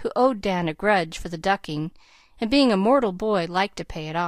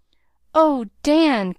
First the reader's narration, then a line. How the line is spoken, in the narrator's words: cried Nat